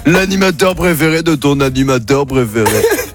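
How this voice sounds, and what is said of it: Impression of Jean-Luc Reichmann. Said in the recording (French): “Vous voulez que je vous fasse Jean-Luc Reichmann?”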